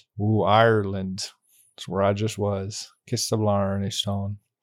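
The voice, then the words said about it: Bad put-on Irish accent. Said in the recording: “I wish to apologize to all Irish listeners who just heard that accent.”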